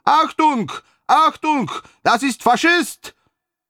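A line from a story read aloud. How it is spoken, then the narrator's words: Frantic scream. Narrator (Russian): истошно завопил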